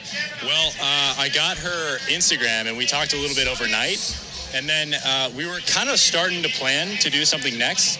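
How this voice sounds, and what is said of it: American accent. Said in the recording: “I heard his American accent through the crowd ... is that an American accent?”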